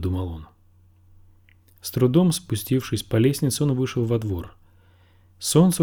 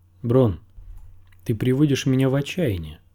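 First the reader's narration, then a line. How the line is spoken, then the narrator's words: Plain. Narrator (Russian): сказал Тирион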